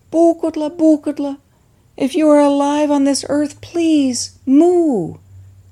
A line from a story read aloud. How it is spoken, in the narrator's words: He called out